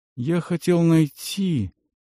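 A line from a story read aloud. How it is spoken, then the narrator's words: Quiet. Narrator (Russian): проговорил Тималь тихо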